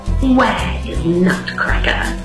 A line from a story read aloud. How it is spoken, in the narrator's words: He hissed